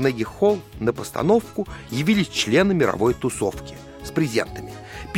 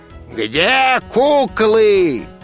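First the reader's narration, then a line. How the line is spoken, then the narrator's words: Crowd roaring. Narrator (Russian): людская масса взревела, как пожарная машина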